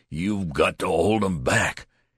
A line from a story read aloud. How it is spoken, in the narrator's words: he shouted savagely